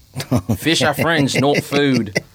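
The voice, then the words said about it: Australian accent, Bruce from Finding Nemo. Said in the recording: “make an Australian accent ... Bruce from Finding Nemo”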